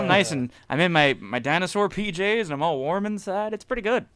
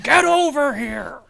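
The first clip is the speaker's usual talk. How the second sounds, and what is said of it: Shouted character voice. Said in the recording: “doing character impersonations. Shouting over people”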